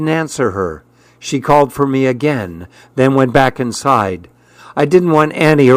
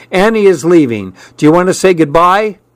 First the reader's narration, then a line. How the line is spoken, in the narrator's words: Mom shouted from the back stairs